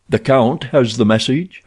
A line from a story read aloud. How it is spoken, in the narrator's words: asked Rokoff